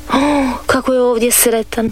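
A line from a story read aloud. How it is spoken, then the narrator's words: Sighing. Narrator (Croatian): uzdiše Dorica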